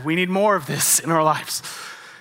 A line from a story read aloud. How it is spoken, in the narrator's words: I triumphantly said